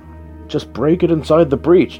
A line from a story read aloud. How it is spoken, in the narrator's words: DeAndre yelled